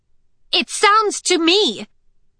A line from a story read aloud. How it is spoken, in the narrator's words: she said, her voice rising to compete with Cinder's